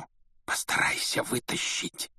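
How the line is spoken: Whisper. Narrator (Russian): шепнул Рон

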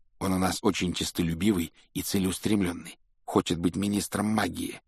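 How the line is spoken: Low-voiced explanation. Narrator (Russian): объяснил Рон друзьям вполголоса

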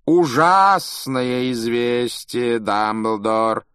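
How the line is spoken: Theatrical drawl. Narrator (Russian): Театральным голосом протянул Малфой

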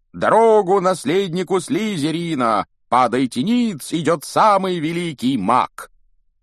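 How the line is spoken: Loud shouting. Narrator (Russian): громко крича

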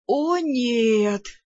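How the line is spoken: Group groaning together. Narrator (Russian): дружно застонали адепты

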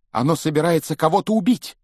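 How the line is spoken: Shout. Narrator (Russian): крикнул он

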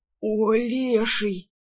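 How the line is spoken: Groaning. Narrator (Russian): простонал он

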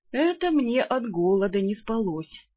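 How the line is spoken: Feigned sad sigh. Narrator (Russian): с наигранной печалью вздохнул вампир

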